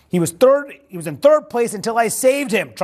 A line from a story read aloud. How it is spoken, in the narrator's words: Trump shouted